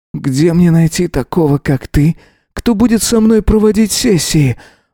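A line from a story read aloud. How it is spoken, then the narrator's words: Sigh. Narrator (Russian): вздохнул Эзра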